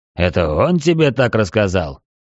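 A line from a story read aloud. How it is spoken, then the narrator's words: Skeptical snort. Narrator (Russian): хмыкнул Рокки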